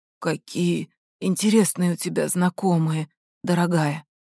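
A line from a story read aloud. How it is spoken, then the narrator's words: Hoarse, barely audible. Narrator (Russian): прохрипел Райан едва слышно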